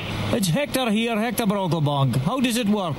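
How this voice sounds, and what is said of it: Scottish Peterhead accent character voice. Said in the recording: “classic accent ... I like the northeast accent, but it's a Peter Head accent”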